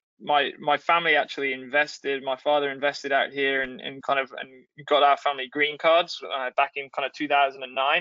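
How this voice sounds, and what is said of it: English accent. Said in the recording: “I hear an accent ... I originally from England”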